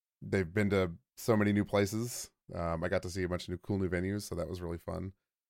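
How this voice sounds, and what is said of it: Slightly hoarse voice. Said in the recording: “My voice is still a little hoarse,... fighting off a little bit of a cold”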